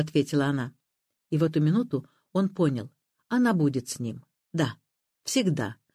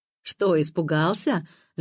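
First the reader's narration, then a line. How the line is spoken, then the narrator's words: Laughing. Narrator (Russian): засмеялась Зоя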